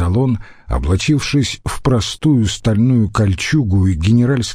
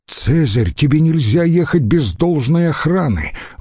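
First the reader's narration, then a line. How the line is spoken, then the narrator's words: Exclamation. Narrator (Russian): воскликнул Трибоний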